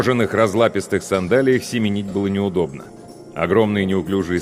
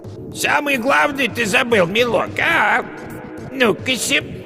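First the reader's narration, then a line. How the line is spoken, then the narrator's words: Falsely thin old woman's call. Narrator (Russian): яга позвала фальшиво тонким голосом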